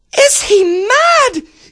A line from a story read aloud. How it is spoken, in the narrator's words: yelled the princess